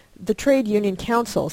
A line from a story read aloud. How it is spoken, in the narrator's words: Sabina answered